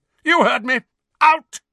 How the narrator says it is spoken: Uncle Vernon bellowed

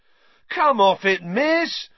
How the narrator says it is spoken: howled Fred

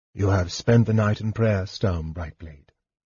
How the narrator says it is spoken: Alfred said quietly

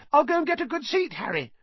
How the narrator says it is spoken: Colin called after him in a piping voice

